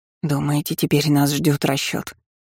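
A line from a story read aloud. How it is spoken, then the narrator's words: Quiet question. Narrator (Russian): тихо спросила Нэнси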